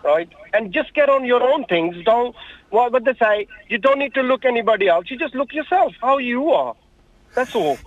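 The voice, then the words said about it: Pakistani accent. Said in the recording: “I'm detecting an accent... I'm from Pakistan”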